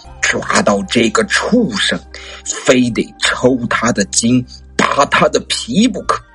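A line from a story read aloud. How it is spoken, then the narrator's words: Through gritted teeth. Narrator (Chinese): 骆长空的一个兄弟咬牙切齿的说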